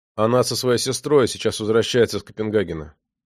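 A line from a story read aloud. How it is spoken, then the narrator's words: Plain. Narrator (Russian): ответил наконец Мартин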